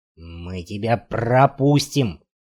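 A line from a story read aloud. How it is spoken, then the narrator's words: Growling, hoarse barking. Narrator (Russian): прорычал, срываясь на хриплый лай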